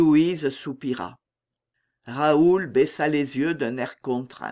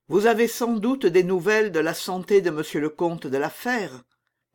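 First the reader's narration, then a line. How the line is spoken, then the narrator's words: Sorrowful, after a sigh. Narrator (French): dit Louise à la suite de ce soupir qui avait tant révélé de douleur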